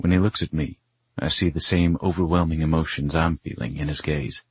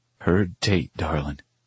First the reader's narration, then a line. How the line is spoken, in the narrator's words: he answers, his voice thick with emotion